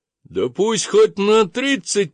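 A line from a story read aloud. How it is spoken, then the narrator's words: Hysterical yell and laugh. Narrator (Russian): прорал я и глупо истерически хохотнул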